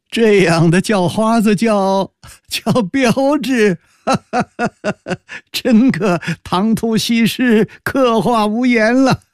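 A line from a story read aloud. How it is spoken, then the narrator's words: Hearty laughter. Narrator (Chinese): 高士奇大笑道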